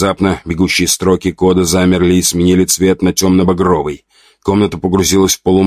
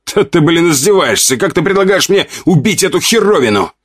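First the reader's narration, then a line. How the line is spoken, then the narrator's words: Angry yell upward. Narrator (Russian): заорал я в потолок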